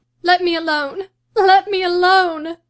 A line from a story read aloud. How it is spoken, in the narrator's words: sobbed Catherine